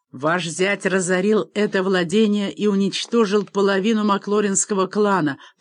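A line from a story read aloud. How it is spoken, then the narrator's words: Roaring. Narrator (Russian): проревел Макбейн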